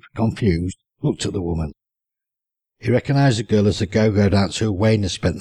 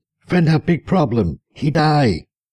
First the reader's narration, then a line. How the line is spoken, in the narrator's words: Her agitated friend screamed